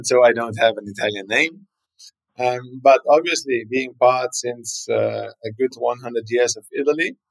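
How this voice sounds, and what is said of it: German-speaking accent, not Italian. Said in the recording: “speaking German, as you hear from my accent. I don't have a classical Italian accent,”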